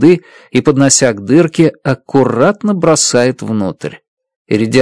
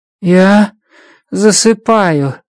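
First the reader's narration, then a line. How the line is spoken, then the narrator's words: Sleepy mumble. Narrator (Russian): сонно бормочет иридианец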